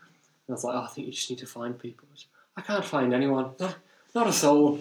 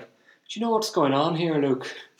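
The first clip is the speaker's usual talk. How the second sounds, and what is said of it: Put-on Irish accent. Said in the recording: “That's not the accent she used, but it's just my Irish accent. It's the only Irish accent I can do.”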